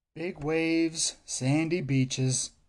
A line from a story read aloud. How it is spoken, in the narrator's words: he says dreamily